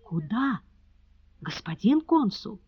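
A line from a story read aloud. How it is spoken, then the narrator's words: Loud, frightening whisper. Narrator (Russian): Сигизмунд Гош громким, страшным шепотом спросил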